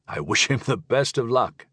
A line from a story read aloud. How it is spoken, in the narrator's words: chuckled Bendenal